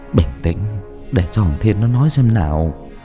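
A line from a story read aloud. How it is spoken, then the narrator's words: Soft soothing voice. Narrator (Vietnamese): Cha tôi khẽ an ủi mẹ rồi nói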